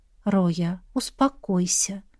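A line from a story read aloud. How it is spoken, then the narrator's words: Soft request. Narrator (Russian): мягко попросила я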